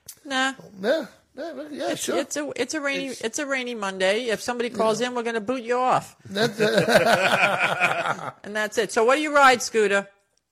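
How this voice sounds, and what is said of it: New York accent. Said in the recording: “It sounds like you're from Boston. ... I ain't from Boston. Listen, I'm from New York. ... there she goes with that's the accent. ... I'm gonna get heavy on the New York. ... I'm trying not to sound like I'm from New York, but I can't help it.”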